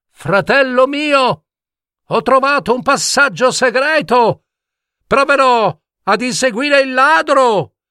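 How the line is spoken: Loud voice. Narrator (Italian): disse Bulbetto a gran voce

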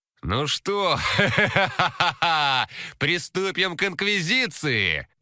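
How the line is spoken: Laughing in a strange voice. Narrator (Russian): Он рассмеялся не своим голосом

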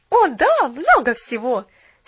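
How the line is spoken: Happy exclamation. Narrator (Russian): счастливо воскликнула Поллианна

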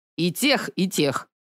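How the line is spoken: Irritated grunt. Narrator (Russian): раздраженно крякнул босс

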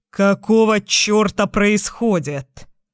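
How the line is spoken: Growl. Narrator (Russian): Зарычал Майк

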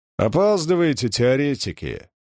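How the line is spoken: Grumbling. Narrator (Russian): проворчал Чернышов

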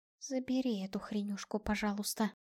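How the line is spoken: Whisper. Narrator (Russian): прошептала Альда

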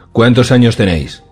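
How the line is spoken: Brusque question. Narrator (Spanish): preguntó Cersei con tono brusco

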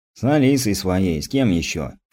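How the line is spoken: Snorting young man. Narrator (Russian): фыркнул парень

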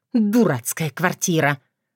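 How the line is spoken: Angry quiet hiss. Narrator (Russian): Злобно и тихо прошипела она

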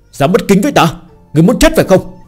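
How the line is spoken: Furious, menacing. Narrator (Vietnamese): Y tỏ thái độ vô cùng giận dữ, một thân khí thế hung ác

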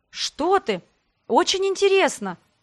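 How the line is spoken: Exclaiming. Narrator (Russian): воскликнула я

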